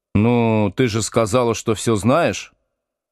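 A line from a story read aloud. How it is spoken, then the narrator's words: Relieved laughter. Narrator (Russian): Саша облегченно рассмеялась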